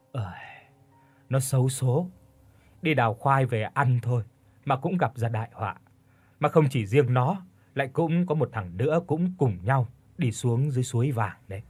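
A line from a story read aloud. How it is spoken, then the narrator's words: Sighing, old woman. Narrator (Vietnamese): Bà ngoại thở dài nói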